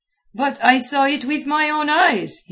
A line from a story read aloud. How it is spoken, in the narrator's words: he cried